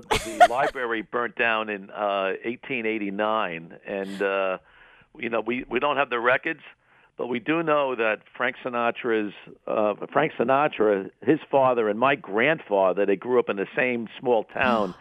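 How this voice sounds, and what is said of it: New York accent. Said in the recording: “I love your New York accent. ... I still have my New York accent.”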